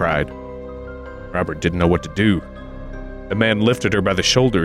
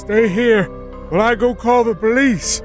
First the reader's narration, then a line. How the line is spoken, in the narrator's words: the man shouted